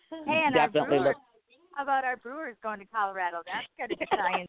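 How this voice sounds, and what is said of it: Northern Wisconsin accent. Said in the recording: “your accent from the Northwoods. It's cute. ... a lot of people think we're Canadian, but you definitely have that youper”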